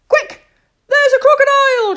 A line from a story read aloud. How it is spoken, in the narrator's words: shouted Bernard